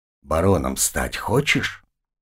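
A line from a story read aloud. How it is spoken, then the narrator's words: Quiet. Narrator (Russian): тихо ответил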